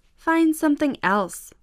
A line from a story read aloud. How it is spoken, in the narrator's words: said Jack